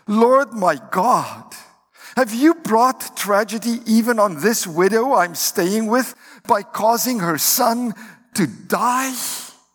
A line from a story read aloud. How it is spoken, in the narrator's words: he cried out to the Lord